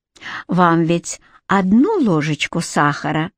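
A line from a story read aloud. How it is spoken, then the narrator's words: Even-toned question. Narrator (Russian): спросила Джуин ровным голосом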